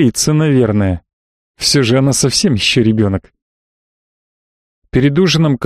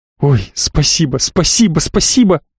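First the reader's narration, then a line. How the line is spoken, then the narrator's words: Joyful. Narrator (Russian): Радостно Мира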